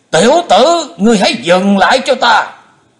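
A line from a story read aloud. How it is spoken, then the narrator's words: Loud angry shout. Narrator (Vietnamese): Bệnh túy thần quân ... ông ta quát to lên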